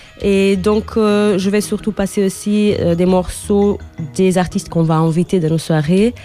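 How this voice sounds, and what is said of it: Portuguese accent in French. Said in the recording (French): “On a compris à ton accent que tu avais des origines portugaises”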